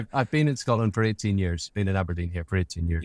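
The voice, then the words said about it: Mixed Northern Irish and Scottish accent. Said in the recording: “accent a little bit Northern Irish and a little a little bit Scottish, although not ... not very Scottish.”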